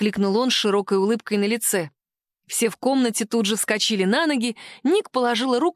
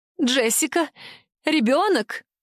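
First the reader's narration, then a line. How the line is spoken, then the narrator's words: Trembling question. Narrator (Russian): спросила Тиа Ева дрожащим голосом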